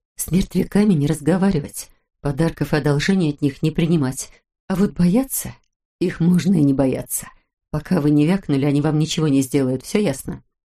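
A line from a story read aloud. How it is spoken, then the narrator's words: Commanding whisper. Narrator (Russian): шепнула Улита голосом, который исключал возможность неповиновения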